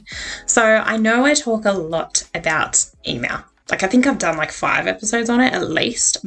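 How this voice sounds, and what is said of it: Energetic, upbeat speaking voice. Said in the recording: “As you can hear in my voice, I am pretty full of energy this week”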